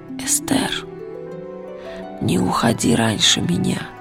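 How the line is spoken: Whisper. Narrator (Russian): прошептал Ли

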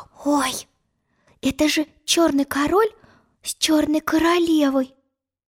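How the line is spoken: Whispered. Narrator (Russian): прошептала она

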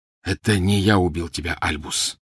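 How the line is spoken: Quiet. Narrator (Russian): негромко произнес вошедший

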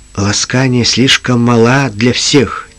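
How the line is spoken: Quiet reply. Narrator (Russian): тихо ответил Джим

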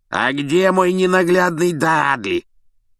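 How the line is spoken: Hoarse bark. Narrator (Russian): хрипло гаркнула тетушка

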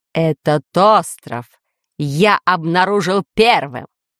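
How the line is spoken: Menacing lord's declaration. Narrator (Russian): грозно заявил повелитель

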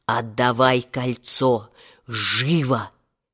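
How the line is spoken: Terrified hoarse rasp. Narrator (Russian): Хапугин ... ни жив, ни мертв ... прохрипел

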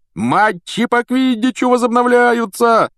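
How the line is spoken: Yelling. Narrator (Russian): вопил Вуд

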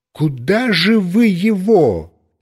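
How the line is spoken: Woman shouting. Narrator (Russian): закричала моя бывшая строгая соседка

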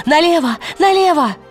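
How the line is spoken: Eagle's cry. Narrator (Russian): Пантелеймон, уже орел, крикнул

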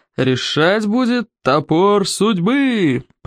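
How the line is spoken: Roared. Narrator (Russian): проревел Норберт

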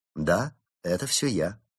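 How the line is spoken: Calm agreement. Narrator (Russian): спокойно согласился Улис

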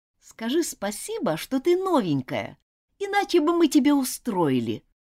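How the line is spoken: Indignant girl. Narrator (Russian): возмущенно проговорила незнакомая девочка

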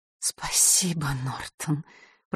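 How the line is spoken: Whisper. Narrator (Russian): прошептала женщина

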